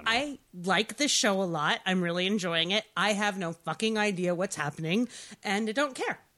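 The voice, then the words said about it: Deep, irritating, cold-affected voice. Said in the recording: “I have a cold now, so the irritating deep voice.”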